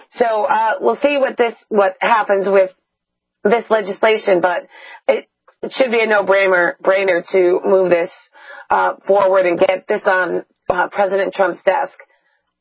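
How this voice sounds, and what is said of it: Hoarse, fading voice. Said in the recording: “obviously you can tell I'm losing my voice”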